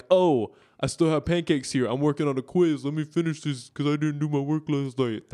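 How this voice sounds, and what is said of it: Imitates another person's voice. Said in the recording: “That's my impression of David ... I think it's a pretty good impression.”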